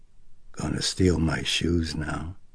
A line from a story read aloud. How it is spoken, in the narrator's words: Karras muttered thickly